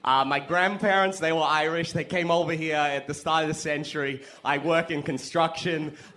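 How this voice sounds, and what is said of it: Put-on Boston accent. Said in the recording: “I really need to work on a Boston accent before I just pull it out of a bag and do it”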